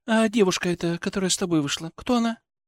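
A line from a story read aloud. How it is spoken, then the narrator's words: Calm, almost indifferent. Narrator (Russian): Вопрос прозвучал вроде бы спокойно, почти безразлично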